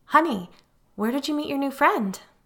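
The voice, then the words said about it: Unnaturally sing-song voice. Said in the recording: “in an unnaturally sing-song voice”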